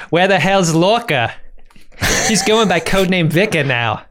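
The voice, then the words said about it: Put-on Boston accent. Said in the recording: “said through a Boston accent”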